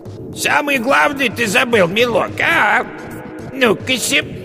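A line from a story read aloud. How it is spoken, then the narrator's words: Witch's falsely thin call. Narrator (Russian): яга ... позвала фальшиво тонким голосом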